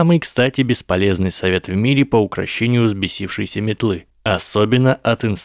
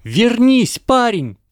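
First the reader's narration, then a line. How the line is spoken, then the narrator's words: Woman shouting after someone. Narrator (Russian): прокричала вслед мальчику мадам Хуч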